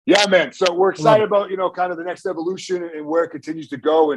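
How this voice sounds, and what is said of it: Boston accent. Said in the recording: “the Boston accent”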